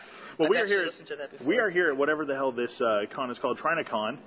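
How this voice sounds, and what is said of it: Usual voice. Nothing is said of it.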